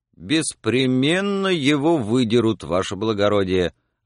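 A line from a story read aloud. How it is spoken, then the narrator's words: Convinced tone. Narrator (Russian): ответил денщик убежденным тоном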